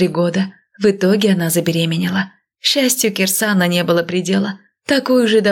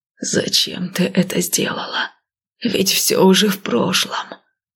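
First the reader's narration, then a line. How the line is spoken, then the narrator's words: Moaning. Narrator (Russian): простонал Кирсан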